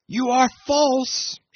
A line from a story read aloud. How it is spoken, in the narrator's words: she screamed after Jim